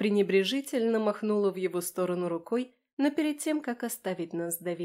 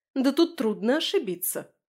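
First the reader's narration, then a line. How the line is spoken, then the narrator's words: Snapping retort. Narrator (Russian): огрызнулась она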